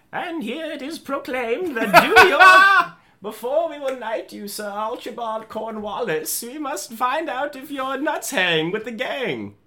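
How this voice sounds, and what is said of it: Good British accent as the queen. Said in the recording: “I can't do a British accent. Do yours. ... British accent for the queen. ... Why are you so good at that?”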